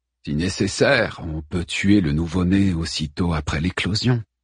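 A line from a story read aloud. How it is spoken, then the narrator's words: Murmured. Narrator (French): murmura-t-il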